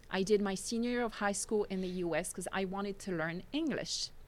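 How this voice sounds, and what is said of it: Thick non-native accent. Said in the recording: “My accent at the time was horrendous. If it is thick now”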